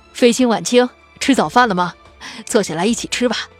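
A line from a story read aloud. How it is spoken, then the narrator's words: Warm, smiling. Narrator (Chinese): 面上依然露出和煦的笑容，说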